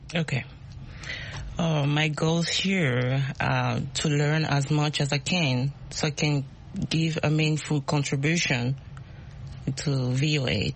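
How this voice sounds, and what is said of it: Speaks with an accent. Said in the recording (French): “My accent. ... We love accents. We all have accents.”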